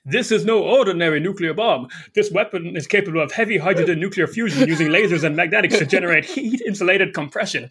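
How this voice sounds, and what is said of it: Cartoonish vampire character voice. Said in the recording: “try to do my vampire voice”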